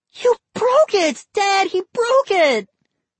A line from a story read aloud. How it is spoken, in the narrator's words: Molly shrieked